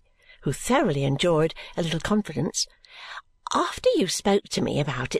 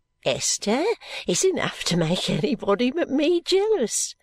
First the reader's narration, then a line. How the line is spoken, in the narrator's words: said Caddy, laughing